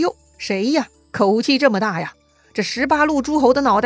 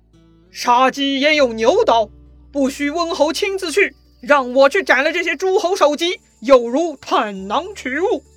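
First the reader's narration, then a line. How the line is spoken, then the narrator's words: Loud. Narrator (Chinese): 吕布身后有一个人大声说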